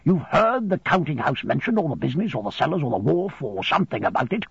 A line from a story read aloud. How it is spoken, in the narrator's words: he went on hastily